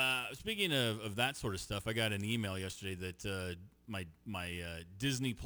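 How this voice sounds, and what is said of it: Usual voice. Nothing is said of it.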